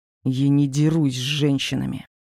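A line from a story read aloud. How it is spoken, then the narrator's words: Angry spat words. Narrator (Russian): зло выплюнул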